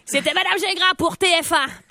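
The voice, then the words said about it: Put-on Belgian French accent. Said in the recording (French): “T'as comme changé l'accent en dernier. ... Ah, je suis rendue en Belgique, je pense.”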